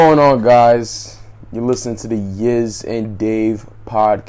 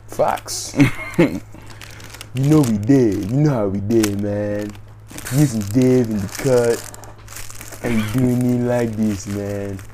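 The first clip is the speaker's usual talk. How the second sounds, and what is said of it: Put-on accent, done badly. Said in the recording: “That accent is terrible ... I wasn't really trying”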